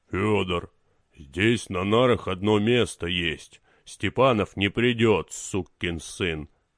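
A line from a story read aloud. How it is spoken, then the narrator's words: Deep bass voice. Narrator (Russian): басом сказали ноги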